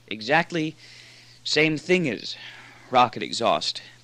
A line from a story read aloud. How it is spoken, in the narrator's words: panted Moore